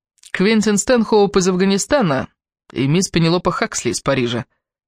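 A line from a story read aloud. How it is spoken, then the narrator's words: Half-joking tone. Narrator (Russian): сказал полушутливым тоном Квентин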